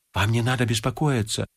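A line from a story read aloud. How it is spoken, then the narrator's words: Whispering. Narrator (Russian): зашептал Полесов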